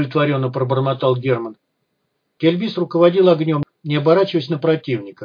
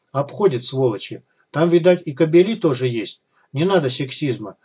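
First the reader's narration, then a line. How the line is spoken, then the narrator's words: Calm reply. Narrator (Russian): спокойно отозвалась Клава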